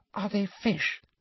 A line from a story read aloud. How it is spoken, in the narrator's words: breathed Ginny